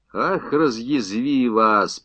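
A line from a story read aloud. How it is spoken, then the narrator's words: Grumbling. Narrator (Russian): пробурчал танкист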